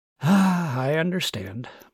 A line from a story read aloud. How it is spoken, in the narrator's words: Martin sighed